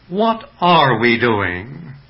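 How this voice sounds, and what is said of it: Question repeated with shifted word stress. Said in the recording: “Or shall I change the accent?”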